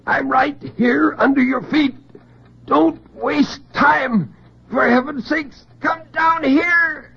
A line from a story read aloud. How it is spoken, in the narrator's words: In terrible silence, he screamed